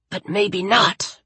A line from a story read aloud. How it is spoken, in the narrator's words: Ray hissed